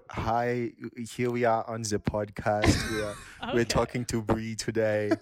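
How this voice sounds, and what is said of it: Put-on German accent. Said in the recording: “killer German accent”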